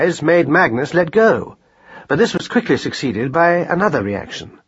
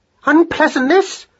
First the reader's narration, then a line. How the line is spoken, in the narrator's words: cried Madeline on a rising note